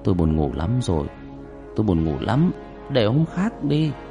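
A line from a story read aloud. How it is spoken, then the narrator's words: Sleepy grumble. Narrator (Vietnamese): Ông mổ não lầm bầm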